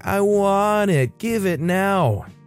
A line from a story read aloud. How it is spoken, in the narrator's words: The kid whining